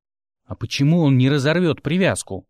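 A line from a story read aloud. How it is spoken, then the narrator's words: Growling. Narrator (Russian): рыкнул Мик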